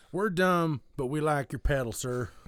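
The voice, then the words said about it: Odd put-on southern-ish accent. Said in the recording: “Why did I give that an accent? ... It was also a southern accent ... your very own take on a whole bunch of weirdness”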